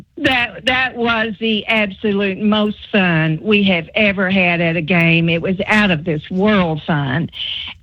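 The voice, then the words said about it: Regional Corbin accent. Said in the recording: “I love your Corbin accent”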